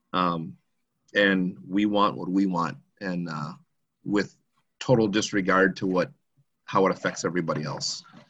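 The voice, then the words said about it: Choked-up, emotional voice. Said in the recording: “I'm a little choked up even talking about it”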